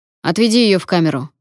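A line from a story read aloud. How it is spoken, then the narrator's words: Angry bark. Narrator (Russian): рявкнул Вокт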